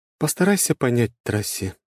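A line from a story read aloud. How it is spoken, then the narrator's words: Quiet, almost ingratiating. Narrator (Russian): заговорила она негромко, почти вкрадчиво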